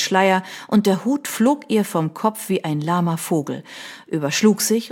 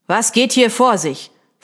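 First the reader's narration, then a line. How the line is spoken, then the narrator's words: Commanding demand. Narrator (German): verlangte er mit gebieterischer Stimme zu wissen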